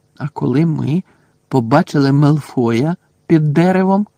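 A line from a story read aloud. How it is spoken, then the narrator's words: Slow speech. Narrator (Ukrainian): повільно проказав Рон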